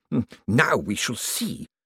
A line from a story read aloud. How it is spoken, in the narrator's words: hissed Bent